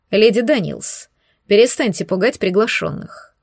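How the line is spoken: Stern. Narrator (Russian): проговорил строго Дэвид Рудвертсин

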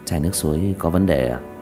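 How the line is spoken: Quiet question. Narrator (Vietnamese): Diệp Thiếu Dương nhỏ giọng hỏi

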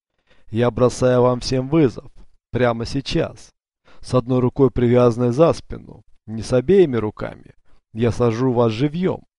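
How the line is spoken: Laughing. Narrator (Russian): Он засмеялся

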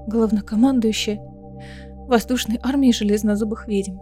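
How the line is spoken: Trembling voice. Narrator (Russian): дрожащим голосом ответила Элида

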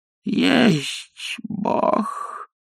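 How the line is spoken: Sad. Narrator (Russian): промолвил печально

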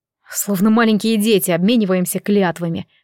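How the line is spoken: Smirking snort. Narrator (Russian): хмыкнул Кир

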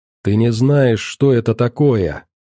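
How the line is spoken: Grumbled. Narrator (Russian): проворчал журналист

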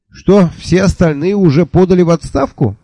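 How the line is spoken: Cheerful question. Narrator (Russian): весело спросил я

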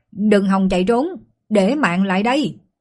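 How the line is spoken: Loud shout. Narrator (Vietnamese): Lục Chu quát to

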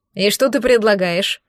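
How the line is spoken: Skeptical snort. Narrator (Russian): хмыкнул второй

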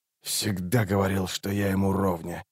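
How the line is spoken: Muttered. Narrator (Russian): пробормотал Раллик

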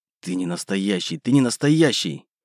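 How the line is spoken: Repeated whisper. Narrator (Russian): Раз за разом шептал я

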